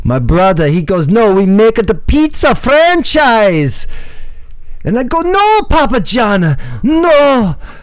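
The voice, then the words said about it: Mock near-Russian accent. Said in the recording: “Almost Russian, a little bit, not quite.”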